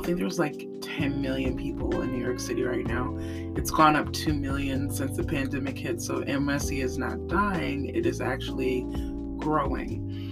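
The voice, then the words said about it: Sick, less melodic, weaker voice. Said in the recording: “my voice is not as mesmerizing or melodic or carrying as it usually is”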